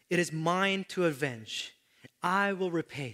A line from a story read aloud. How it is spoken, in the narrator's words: says the Lord